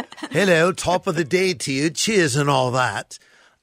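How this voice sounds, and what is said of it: Put-on posh British accent. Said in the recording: “my best version of speaking like a British person ... I'm being a bit posh right now ... you did go a bit posh”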